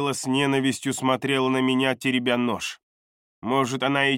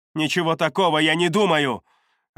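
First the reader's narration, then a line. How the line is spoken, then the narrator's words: Snapping retort. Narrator (Russian): огрызнулась Лайла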